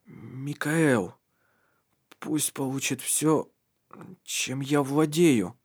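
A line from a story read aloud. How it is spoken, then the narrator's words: Strained whisper. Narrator (Russian): прошептал с огромным напряжением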